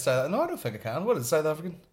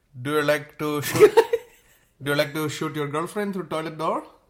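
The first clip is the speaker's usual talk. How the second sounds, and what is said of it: Attempted South African accent. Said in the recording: “Is that your South African one or? ... You can do a South African accent.”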